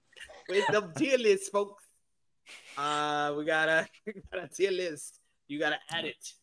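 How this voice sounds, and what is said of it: Put-on accent. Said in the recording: “What is this accent?”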